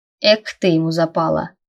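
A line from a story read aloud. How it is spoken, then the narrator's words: Smirking grunt. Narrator (Russian): хмыкнул Крис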